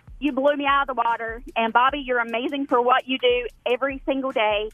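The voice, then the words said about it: North Carolina accent. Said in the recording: “hometown NC represent ... With that accent, definitely.”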